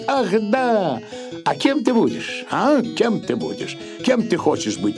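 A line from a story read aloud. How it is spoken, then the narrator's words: Joyful smiling question. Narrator (Russian): радостно улыбаясь, спросит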